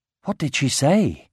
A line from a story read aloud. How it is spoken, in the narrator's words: whispered Aragorn to Nari